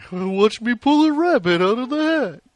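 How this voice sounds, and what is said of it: Bullwinkle impression. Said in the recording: “that Bullwinkle impression”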